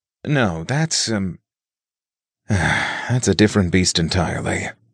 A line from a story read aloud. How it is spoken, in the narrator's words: Nick sighed